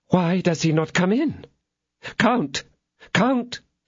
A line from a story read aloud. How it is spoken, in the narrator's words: said the lady in a trembling voice